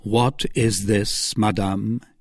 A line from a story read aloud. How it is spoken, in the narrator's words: asked coldly